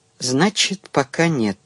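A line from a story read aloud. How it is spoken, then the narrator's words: Sad question. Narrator (Russian): грустно спросил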